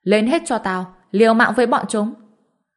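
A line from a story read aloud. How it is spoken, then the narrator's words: Desperate loud yell. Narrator (Vietnamese): Dịch Pháp Long biết mình chết là cái chắc, ông ta hét lớn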